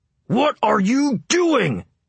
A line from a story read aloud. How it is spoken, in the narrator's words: he yelled